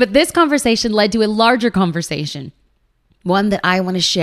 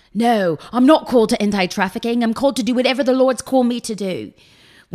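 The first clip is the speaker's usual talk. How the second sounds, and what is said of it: Imitates another person's accent. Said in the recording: “This is where my accent breaks down, so I'll just stop imitating Chris”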